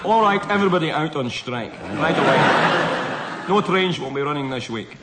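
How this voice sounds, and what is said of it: Scottish-accented celebrity impression. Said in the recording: “a rather better Scottish accent ... I can do Sean Connery better than Jimmy Nap. ... Sean Connery has brought everybody out on strike.”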